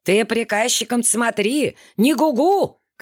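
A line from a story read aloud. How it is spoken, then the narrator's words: Shouting. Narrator (Russian): кричал ей вслед хозяин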